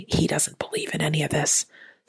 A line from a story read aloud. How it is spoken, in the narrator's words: the wife whispered to me